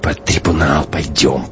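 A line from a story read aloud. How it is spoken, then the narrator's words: Hissing. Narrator (Russian): прошипел Шибанов Гумилеву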